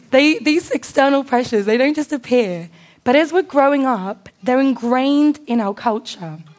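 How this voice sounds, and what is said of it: Strained, slightly hoarse voice. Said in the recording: “I worshipped a little bit too hard, so my voice is going a little bit”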